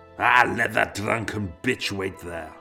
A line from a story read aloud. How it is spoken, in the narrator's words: snorted